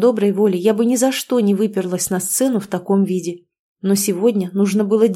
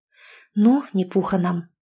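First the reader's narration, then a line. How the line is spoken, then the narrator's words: Muttered. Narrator (Russian): пробормотала я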